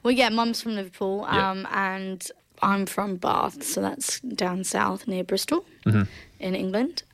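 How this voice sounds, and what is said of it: Slight English accent. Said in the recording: “you've still got a bit of an accent.”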